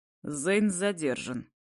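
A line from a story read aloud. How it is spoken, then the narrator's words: Dry and curt. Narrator (Russian): отвечает сухо и коротко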